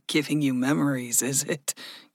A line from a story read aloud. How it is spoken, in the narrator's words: Gregory chuckled